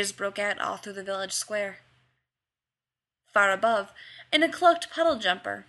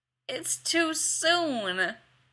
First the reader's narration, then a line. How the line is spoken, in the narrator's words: someone whined